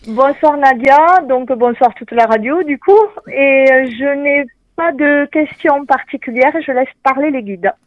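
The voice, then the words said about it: Strong regional French accent. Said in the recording (French): “L'accent. ... avec un super accent. ... Toujours l'accent.”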